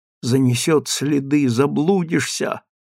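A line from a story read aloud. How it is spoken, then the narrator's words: Fearful whisper. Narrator (Russian): со страхом шептал Андрюша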